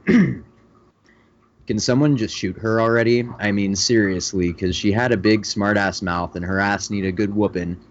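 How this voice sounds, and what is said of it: Dramatic radio announcer voice. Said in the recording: “I'm gonna do this in a dramatic, more dramatic radio voice.”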